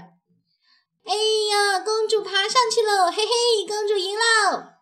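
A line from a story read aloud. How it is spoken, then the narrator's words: Joyful shout. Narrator (Chinese): 他快乐地大叫着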